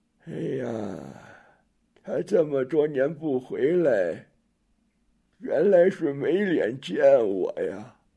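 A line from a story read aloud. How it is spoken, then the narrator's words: Sighing old woman. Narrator (Chinese): 柳婆终于叹了口气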